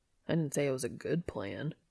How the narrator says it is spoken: he grumbles

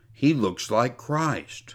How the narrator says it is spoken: one of Simon's men whispered to him

